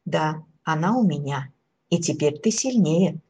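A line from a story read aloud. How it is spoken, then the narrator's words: Plain. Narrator (Russian): сказал Дед Мороз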